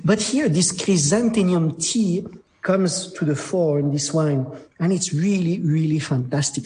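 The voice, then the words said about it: French-accented English. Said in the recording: “My accent is terrible, but I'm French.”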